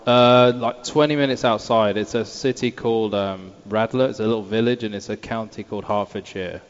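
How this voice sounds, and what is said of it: Non-American accent. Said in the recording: “Because he has an accent. He couldn't have been born here.”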